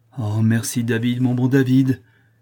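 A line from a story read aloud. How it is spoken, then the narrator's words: Effusive, grateful exclamation. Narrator (French): s'écria le prince avec effusion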